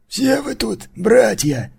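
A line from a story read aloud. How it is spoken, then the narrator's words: Creaky voice. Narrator (Russian): проскрипел Маркус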